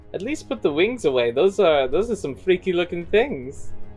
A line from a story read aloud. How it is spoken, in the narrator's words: she chuckles and says